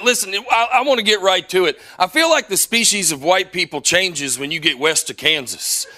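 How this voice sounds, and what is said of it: Southern US accent, Alabama. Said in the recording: “As you can tell, I'm not originally from around here. I know I sound like a bowl of gravy to y'all. I'm originally from Harvest, Alabama.”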